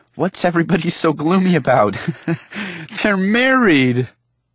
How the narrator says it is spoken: tried to laugh and said

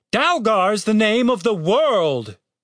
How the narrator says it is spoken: exclaimed the captain

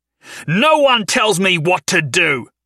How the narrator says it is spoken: he roared

